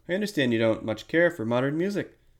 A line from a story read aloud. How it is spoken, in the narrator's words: said Miss Langley